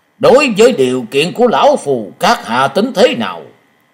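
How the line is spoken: Threatening tone. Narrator (Vietnamese): với giọng uy hiếp hắn nói

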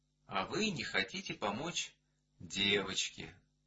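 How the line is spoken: Calm objection. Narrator (Russian): спокойно возразил Эдуард Иванович

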